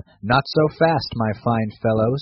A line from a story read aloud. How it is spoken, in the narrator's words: said he